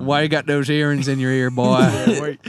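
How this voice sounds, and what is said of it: Put-on Southern American accent. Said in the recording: “Not to mimic people sometimes if they're talking with a southern accent.”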